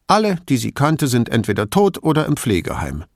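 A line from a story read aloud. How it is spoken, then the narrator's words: Curt answer. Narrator (German): antwortete Professoressa Crosera schroff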